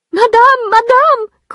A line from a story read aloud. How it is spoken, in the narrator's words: cried Félicité, rushing in